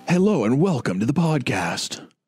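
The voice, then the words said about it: Polished radio announcer voice. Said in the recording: “Wow, you're so professional. ... So radio voice.”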